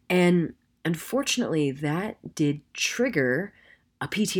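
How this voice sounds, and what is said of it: Usual voice. Nothing is said of it.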